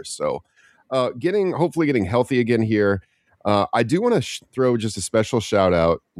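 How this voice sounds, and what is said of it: Stuffy, congested sick voice. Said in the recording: “I've been sick. If you can't tell, my voice is still not right 2 weeks later... I'm still kind of stuffy. So my throat was really bad last week”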